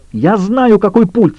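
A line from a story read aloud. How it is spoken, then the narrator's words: Shouting. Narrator (Russian): закричала Хьюитт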